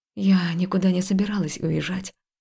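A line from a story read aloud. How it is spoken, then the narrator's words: Quiet speech. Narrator (Russian): тихо произнесла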